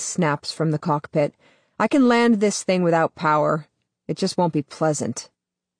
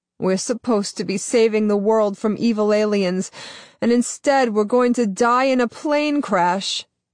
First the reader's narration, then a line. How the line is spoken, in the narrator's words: Daniela moans, her face pressed to the nearest window